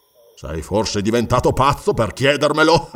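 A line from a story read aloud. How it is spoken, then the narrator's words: Laughing. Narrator (Italian): rise Conan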